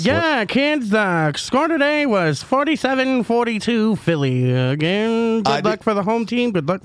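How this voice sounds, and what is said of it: Put-on old-time transatlantic radio accent. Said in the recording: “What is that voice called again, by the way? ... A transatlantic accent? ... they had to talk like this all the time”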